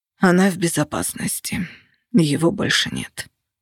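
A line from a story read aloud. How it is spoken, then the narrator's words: Hoarse reply. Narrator (Russian): хрипло ответил Костя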